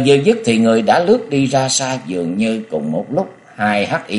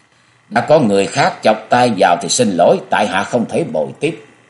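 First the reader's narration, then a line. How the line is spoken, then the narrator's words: Cold voice. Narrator (Vietnamese): một vị cất giọng lạnh lùng nói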